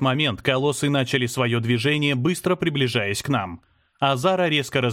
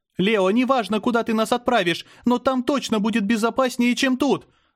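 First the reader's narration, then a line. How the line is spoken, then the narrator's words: Scream. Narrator (Russian): закричала Мира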